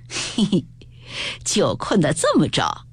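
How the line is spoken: Quiet chuckle. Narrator (Chinese): 宝玉便悄悄地笑道

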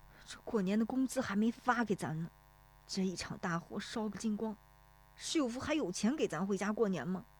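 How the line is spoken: Anxious question. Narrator (Chinese): 有人忍不住去问石有福

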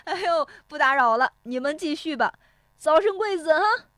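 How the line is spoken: Laughing heartily from outside. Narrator (Chinese): 石有福在窗外哈哈笑着说

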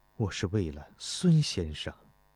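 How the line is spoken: Murmuring. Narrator (Chinese): 钟离春喃喃地说道

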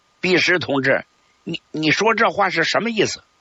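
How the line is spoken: Angry. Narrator (Chinese): 陈昌浩怒视着任弼时说

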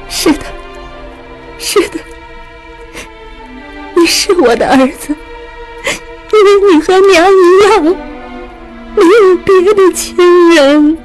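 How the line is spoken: Tearful voice. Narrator (Chinese): 怜爱地 带着哭腔说道

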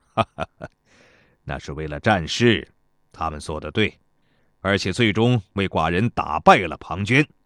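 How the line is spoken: Laughing. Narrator (Chinese): 齐威王笑道

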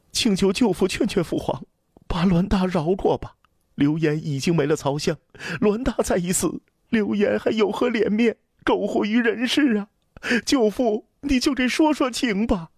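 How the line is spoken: Breathless. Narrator (Chinese): 刘言喘着气说

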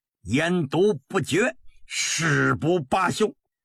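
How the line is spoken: Loud, excited. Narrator (Chinese): 他激动地大声道

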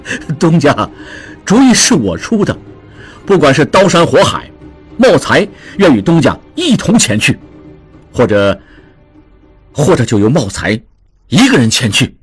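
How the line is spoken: Hearty laughter. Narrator (Chinese): 茂才看着志庸大笑

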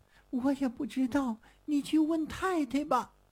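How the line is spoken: Crying. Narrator (Chinese): 小何被问得直哭

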